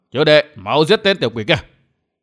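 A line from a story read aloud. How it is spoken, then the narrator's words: Barked. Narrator (Vietnamese): Hắn quát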